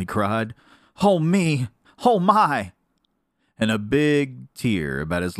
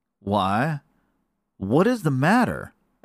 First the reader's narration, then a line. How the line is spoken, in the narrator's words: asked Neddie kindly